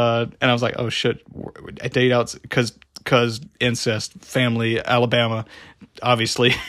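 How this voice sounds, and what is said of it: Usual voice. Nothing is said of it.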